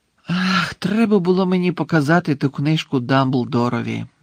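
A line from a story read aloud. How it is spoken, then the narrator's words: Sighing. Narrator (Ukrainian): зітхнув Гаррі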